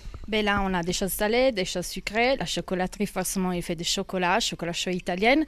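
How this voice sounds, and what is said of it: Slight Italian accent in French. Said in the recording (French): “un petit accent exotique, un petit accent italien”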